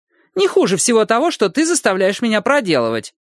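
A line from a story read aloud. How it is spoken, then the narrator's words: Snide. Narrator (Russian): ехидно добавила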